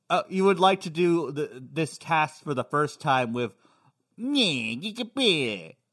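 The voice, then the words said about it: Imitates another person's voice. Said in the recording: “doing an impression of you doing an impression of me”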